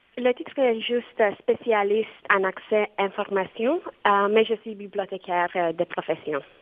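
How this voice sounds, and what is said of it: Romanian accent speaking French. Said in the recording (French): “Vous avez un très joli accent ... je suis roumaine ... vous avez vraiment un très, très, très joli accent”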